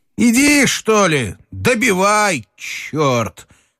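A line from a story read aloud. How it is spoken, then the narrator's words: Shouted. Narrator (Russian): крикнул он Телегину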